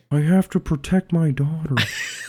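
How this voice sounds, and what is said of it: Imitates another person's voice. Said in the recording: “I sound like Owen Wilson. I sound like Owen Wilson trying to do a Nicolas Cage impression.”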